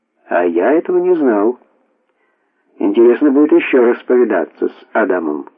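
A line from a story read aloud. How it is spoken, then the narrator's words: Plain. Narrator (Russian): сказал Зигмунд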